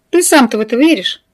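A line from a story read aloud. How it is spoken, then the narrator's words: Mocking snort. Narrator (Russian): Тесар насмешливо фыркнул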